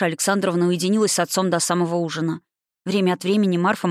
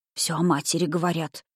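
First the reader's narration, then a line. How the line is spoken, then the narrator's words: Whispered. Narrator (Russian): прошептала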